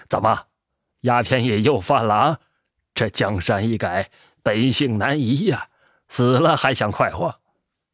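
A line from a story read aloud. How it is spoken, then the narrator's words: Mocking laugh. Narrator (Chinese): 干尸匠笑道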